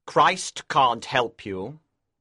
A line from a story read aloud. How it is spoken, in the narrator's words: Lucifer said coldly